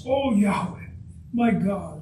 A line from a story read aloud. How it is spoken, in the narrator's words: I cried out to you